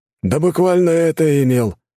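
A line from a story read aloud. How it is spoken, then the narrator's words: Snorting. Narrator (Russian): хмыкнул Федор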